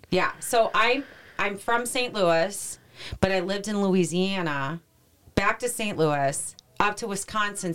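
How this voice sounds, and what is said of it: Mixed Southern and Midwestern accent. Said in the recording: “I have a weird accent. South. ... You have a combination. ... So I have this whole weird fucking accent going on.”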